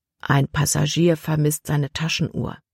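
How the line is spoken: Captain's low voice. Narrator (German): sagte Kapitän Norstad Libby mit leiser Stimme

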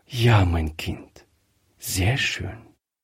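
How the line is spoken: Soft. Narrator (German): sagte Frau Griffier leise

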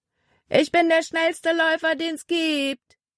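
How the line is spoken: Called out. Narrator (German): rief er ihnen zu

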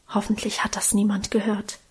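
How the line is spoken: Whisper. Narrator (German): Karl flüsterte

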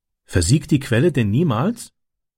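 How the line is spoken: Plain question. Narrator (German): fragte Francis

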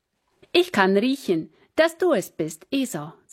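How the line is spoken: Plain. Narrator (German): sagte Isaak

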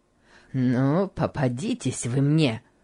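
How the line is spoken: Muttered through teeth. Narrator (Russian): бормотал Гейли сквозь зубы

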